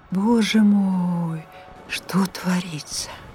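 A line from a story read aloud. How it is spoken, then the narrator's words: Woman's sorrowful tutting mutter. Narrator (Russian): Какая-то женщина то и дело горестно цокала языком и бормотала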